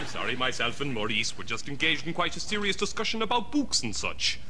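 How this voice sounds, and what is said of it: Speaks in a weird put-on voice. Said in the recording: “weird voice”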